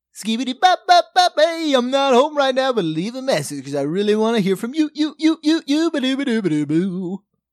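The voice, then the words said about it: Imitates another person's voice. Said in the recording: “your best impression ... It's Mel Torme.”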